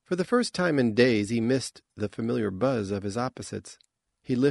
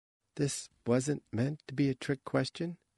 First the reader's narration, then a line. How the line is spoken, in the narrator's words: she said gently